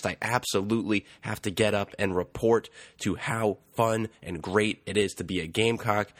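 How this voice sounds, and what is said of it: Sick, under-the-weather voice. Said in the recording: “You might be able to tell in my voice I am under the weather”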